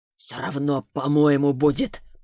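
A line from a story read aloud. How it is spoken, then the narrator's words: Mutter. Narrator (Russian): пробормотал он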